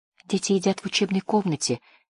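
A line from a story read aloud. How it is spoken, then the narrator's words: Quiet reply. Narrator (Russian): тихо ответила служанка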